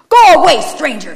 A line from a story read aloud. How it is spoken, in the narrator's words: screamed the brother through the window